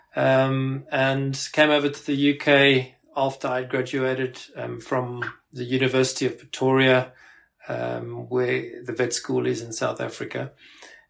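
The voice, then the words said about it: South African accent. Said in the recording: “I actually grew up in South Africa. You might be able to pick that up from my accent.”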